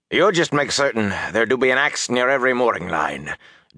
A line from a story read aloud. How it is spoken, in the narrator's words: Doman said curtly